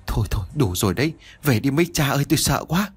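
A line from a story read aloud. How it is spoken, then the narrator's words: Stammering, frightened. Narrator (Vietnamese): Tiếng của Sáu Dung lắp bắp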